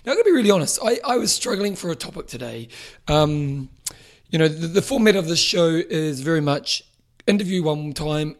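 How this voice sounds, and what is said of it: Slightly hoarse, strained voice. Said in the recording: “losing my voice a little bit today. I've been yelling too much.”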